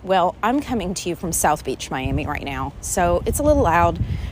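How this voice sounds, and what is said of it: Slightly winded, out of breath. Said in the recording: “I'm a little winded because I'm walking around”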